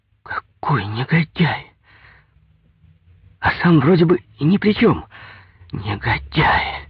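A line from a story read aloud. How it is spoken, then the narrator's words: Sobbing. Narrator (Russian): Инга всхлипнула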